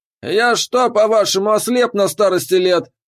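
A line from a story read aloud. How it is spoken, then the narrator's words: Barking, angry. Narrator (Russian): рявкнул Торген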